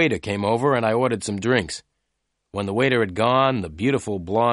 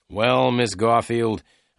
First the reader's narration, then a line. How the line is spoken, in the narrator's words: I said